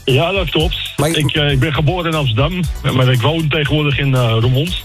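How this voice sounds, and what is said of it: Amsterdam Dutch accent. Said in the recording (Dutch): “Ik hoor toch wel een Amsterdamse accent bij jou, hè?”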